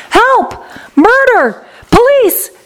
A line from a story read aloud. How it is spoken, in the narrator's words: screamed Mrs